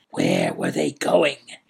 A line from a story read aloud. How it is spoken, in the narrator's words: whispered harshly